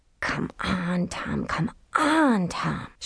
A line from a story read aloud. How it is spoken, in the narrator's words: she whispered